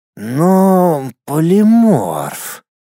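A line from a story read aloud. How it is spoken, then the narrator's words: Confused drawl. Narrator (Russian): протянул растерянный архимаг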